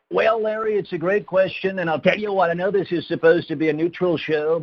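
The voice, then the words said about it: Imitates another person's voice. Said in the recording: “who do you mostly impersonate? Is it the president ... I'm going to use this voice. But he's someone that I do. I do him.”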